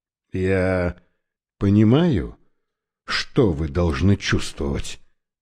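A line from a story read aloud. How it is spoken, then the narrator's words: Soft. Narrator (Russian): мягко произнес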